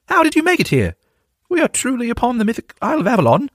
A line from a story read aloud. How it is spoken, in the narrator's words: Percival exclaimed